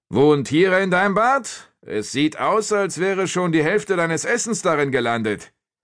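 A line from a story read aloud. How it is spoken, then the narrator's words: Calling out again. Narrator (German): rief Rotnarbe wieder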